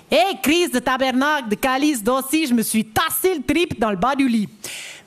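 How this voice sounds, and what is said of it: Put-on Québécois French accent. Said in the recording (French): “l'accent québécois, c'est que ça fait tout paraître joyeux ... Oui, je sais que j'ai dit que je ne savais pas faire.”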